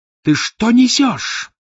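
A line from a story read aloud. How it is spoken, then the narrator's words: Fierce yell. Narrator (Russian): завопила свирепая татарская женщина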